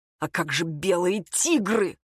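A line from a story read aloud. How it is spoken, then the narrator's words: Angry mutter. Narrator (Russian): Сарафанов зло пробормотал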